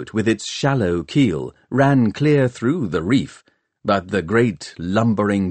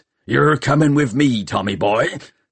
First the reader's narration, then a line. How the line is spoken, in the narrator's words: snarled Chrysler Peavy